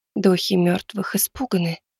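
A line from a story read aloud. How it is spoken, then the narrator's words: Barely audible whisper. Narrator (Russian): прошептала она чуть слышно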